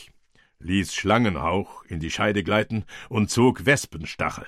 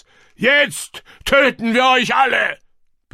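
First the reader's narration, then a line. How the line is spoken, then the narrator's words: Roar. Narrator (German): brüllte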